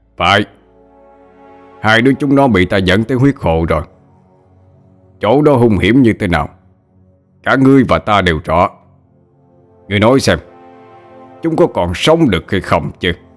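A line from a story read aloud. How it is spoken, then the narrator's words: Loud laughter. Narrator (Vietnamese): quay sang huyết hoàng mà cười lớn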